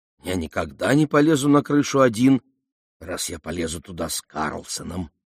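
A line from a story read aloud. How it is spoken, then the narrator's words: Whispered. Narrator (Russian): добавил он шепотом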